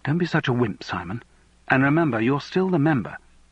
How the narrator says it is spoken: she said surprisingly sharply

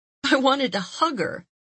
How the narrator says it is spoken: she exclaimed

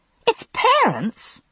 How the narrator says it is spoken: said indignantly

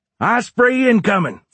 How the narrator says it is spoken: Forster yelled

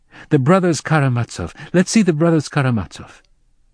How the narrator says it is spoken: she exclaimed excitedly

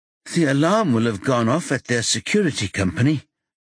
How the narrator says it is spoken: Adam says feebly

